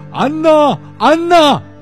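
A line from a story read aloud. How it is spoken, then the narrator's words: Shouting from afar. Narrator (Chinese): 陈纳德隔着老远就大声地喊着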